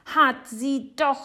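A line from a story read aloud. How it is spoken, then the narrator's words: Shouting. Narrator (German): schreit Jonathan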